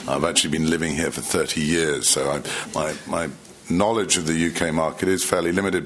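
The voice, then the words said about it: Unusual accent. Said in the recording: “strange accent”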